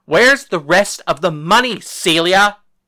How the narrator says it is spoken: William yelled

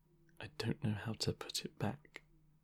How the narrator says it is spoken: put his face in his hands and mutter

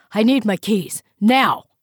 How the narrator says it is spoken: barked

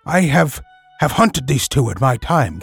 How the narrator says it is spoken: gasped Akela

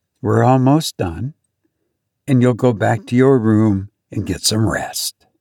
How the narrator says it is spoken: she said calmly

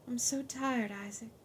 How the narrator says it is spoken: she sighed

